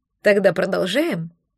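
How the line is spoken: Grumbling. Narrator (Russian): Берта заворчала с порога

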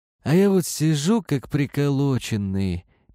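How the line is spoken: Sad. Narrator (Russian): печально говорил он

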